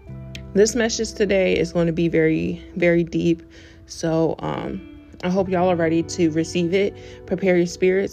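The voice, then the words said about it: Scratchy, worn-out voice. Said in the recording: “my voice is kind of gone. It's like a little scratchy ... excuse me if I sound like Pop Smoke or Debo ... my voice is it's a little scratchy”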